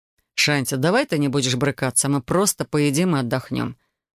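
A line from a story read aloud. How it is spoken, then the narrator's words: Tired. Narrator (Russian): устало произнес он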